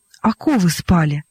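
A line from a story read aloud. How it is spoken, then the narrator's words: Calm simple reply. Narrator (Russian): ответил спокойно и просто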